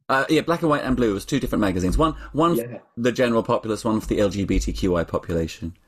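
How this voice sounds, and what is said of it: Accent suited to Prisoner Cell Block H. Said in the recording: “Available for remakes of Prisoner Cell Block H with that accent”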